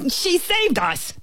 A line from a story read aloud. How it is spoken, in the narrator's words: the ant bellowed